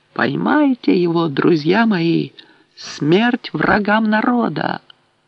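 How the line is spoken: Shout. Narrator (Russian): Уиса крикнуть

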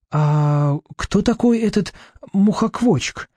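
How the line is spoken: Timid question. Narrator (Russian): робко спрашивает Артур

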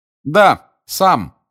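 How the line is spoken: Deliberately loud. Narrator (Russian): сказал громко Гарри, так, чтобы и Каркаров его услышал

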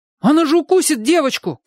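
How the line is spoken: Shout. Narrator (Russian): крикнул Чик

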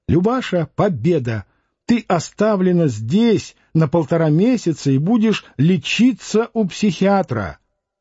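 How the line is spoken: Shouting. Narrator (Russian): закричала

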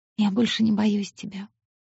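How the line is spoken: Whisper. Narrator (Russian): прошептала Оникс

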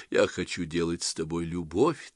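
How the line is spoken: Quiet. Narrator (Russian): так же тихо добавила Ирина

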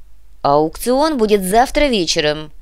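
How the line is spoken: Stern, curt. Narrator (Russian): Строго отрезал Юрбек

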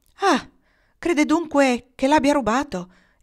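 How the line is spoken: Exclaimed. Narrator (Italian): esclamò Nils

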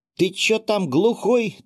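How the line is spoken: Yell. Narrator (Russian): заорала в него Клава

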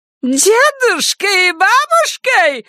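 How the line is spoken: Shrill shriek. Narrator (Russian): взвизгнула она

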